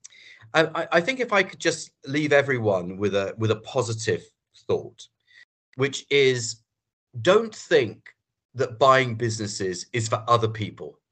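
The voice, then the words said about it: British accent. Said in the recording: “you can tell I've got a British accent”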